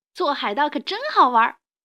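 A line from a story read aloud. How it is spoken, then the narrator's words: Pirates shouting. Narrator (Chinese): 这帮海盗呼喊着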